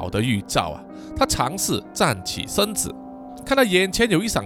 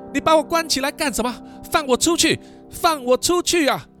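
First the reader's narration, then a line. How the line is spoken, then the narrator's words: Shouting repeatedly. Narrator (Chinese): 喊了好几次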